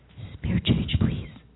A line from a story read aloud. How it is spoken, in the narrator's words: would whisper